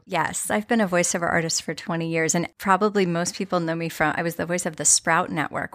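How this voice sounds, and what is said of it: Polished, beautiful radio voice. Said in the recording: “has a beautiful radio voice.”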